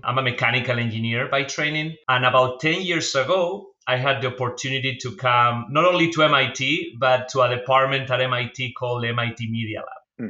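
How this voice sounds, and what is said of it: Spanish accent. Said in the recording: “as you can tell from my accent, I'm not from the US, I'm from Spain”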